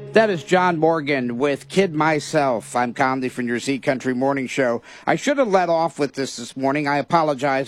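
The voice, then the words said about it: Slightly raspy, hoarse voice. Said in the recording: “My voice is a little raspy. It's this time of year with my sinuses and the weather change ... So my voice is a little off.”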